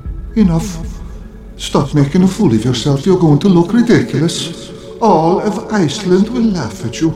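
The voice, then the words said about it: Strong Irish accent. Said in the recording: “his accent is out of control ... with an Irish accent”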